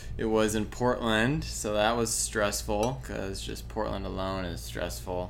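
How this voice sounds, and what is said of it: Tired, exhausted voice. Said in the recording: “as you can probably tell in my voice, I am exhausted”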